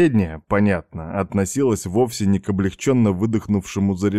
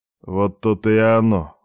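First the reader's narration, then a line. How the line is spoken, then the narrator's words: Gloomy mutter. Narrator (Russian): мрачно буркнул себе под нос Алексеев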